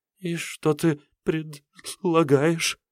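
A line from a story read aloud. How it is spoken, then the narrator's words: Nervous stammering. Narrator (Russian): От волнения она начала заикаться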